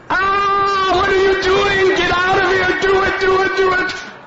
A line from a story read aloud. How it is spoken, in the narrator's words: she starts screaming